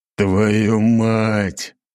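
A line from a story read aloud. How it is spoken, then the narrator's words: Emperor, through gritted teeth. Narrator (Russian): процедил сквозь зубы император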